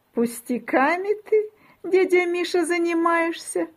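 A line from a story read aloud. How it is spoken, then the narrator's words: Giggling. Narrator (Russian): хихикает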